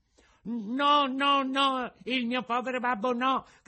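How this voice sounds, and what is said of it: Desperate shouting. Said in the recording (Italian): “gridò Pinocchio con accento disperato”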